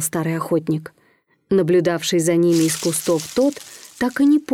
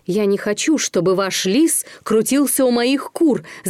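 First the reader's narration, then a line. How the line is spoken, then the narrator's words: Shouting. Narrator (Russian): закричал Амос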